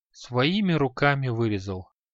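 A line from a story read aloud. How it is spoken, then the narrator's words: Weary. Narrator (Russian): устало кивнул Креол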